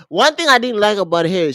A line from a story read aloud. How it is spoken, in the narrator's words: she snapped